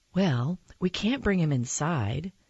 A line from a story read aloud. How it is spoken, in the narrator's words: she said finally